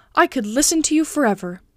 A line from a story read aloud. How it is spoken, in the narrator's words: said Candide